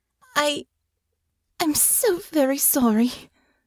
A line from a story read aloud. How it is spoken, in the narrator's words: she said, her voice shaking